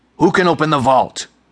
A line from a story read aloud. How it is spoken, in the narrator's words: sputtered